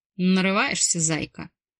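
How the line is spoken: Growl. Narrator (Russian): прорычал Марк

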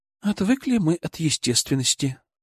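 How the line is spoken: Sighing. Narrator (Russian): вздохнула Юля

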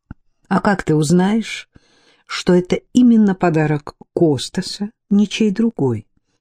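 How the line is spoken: Plain question. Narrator (Russian): спросила Дарлинг

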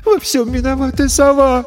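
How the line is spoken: Sobbing. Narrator (Russian): всхлипнула Ресси

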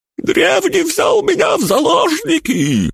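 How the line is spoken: Knight's shrill squeal. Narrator (Russian): взвизгнул рыцарь

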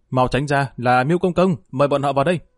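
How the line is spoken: Loud shout. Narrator (Vietnamese): Lữ Đại Bồng Trì lập tức hét lớn lên một tiếng

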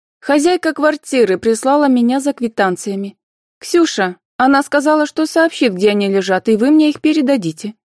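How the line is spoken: Calm and loud. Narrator (Russian): спокойно и громко отвечала Анфиса

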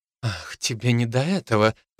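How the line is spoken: Angry, through teeth. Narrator (Russian): процедила Софи, заметно разозлившись

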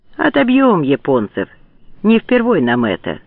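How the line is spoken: Calm. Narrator (Russian): спокойно говорил прапорщику стрелок

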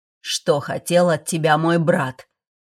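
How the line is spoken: Cold irritated growl. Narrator (Russian): Рыкнул Фрост, вернув лицу былую холодность и раздражительность

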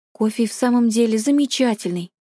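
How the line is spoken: Plain. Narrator (Russian): ответила Мин Си

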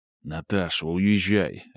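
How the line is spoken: Quiet. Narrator (Russian): говорит Михаил тихо

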